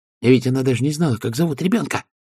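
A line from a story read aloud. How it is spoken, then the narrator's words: Whispered. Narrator (Russian): прошептала Пердита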